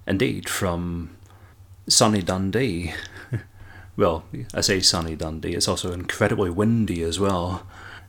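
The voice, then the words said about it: Scottish accent. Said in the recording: “you can probably detect my accent, and that I'm from Scotland”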